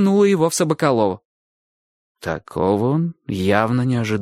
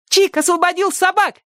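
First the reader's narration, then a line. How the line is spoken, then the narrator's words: Joyful shout. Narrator (Russian): радостно крикнула Сонька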